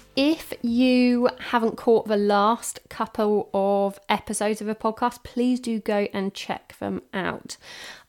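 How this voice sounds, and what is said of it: Croaky voice from a cold. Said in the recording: “I do have a bit of a cold, so I do apologise if I sound a bit croaky”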